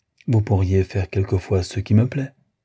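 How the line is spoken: Sincere sigh. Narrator (French): soupirai-je très sincèrement

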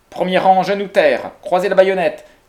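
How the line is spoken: General shouting. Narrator (French): cria le général

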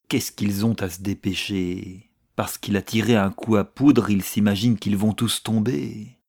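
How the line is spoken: Grumbling officer. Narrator (French): grommelait un sous-officier

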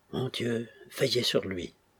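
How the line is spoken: Faint, exhausted voice. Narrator (French): par un suprême effort, il put trouver assez d'énergie pour lui dire, d'une voix éteinte

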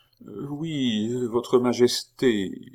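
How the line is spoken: Stammering woman. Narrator (French): fit la femme en balbutiant

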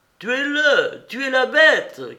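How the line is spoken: Exclamation. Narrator (French): qu'elle s'écrie

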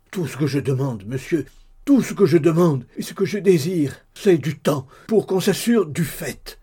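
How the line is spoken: Trembling desperate cry. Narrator (French): cria le pauvre diable tout tremblant

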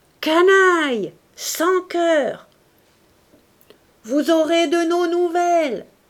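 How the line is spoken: Furious yell. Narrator (French): hurla Bush

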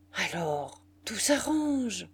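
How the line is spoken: Relieved murmur. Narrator (French): murmura Muffat soulagé

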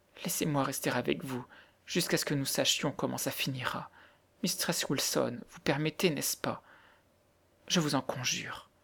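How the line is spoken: Pleading child's voice. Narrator (French): disait Mary, et la pauvre enfant répétait d'une voix suppliante

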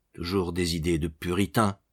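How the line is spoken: Murmured. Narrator (French): murmurait-il

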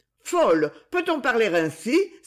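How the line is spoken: Exclaimed. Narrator (French): s'exclama Esther

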